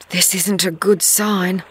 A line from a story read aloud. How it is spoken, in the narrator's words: she whispers to herself